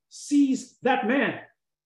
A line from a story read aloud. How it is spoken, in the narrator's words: King Jeroboam shouted